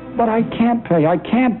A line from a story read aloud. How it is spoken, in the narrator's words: gasped